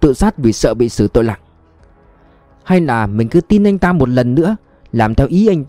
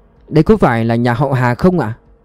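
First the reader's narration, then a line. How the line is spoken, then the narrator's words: Friendly smiling. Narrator (Vietnamese): Vương Các Đông mỉm cười thân thiện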